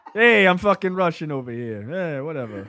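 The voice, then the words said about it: Put-on Russian accent. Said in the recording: “Can Pesci do a Russian accent?”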